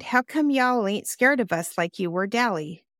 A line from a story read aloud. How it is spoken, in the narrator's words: Cherry sighed